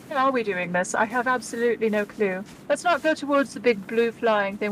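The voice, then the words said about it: Put-on British accent. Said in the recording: “I forgot that I'm doing a British accent now.”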